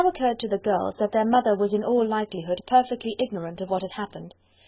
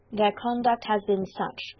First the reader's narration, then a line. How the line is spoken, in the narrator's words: replied Elizabeth